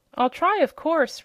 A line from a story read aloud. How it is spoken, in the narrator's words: replied the Wheeler eagerly